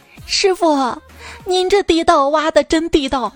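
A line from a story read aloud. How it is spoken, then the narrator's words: Admiring exclamation. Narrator (Chinese): 小明不禁感叹道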